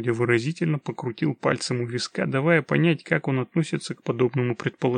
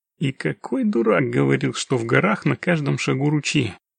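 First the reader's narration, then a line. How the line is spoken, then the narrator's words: Grumbling. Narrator (Russian): проворчал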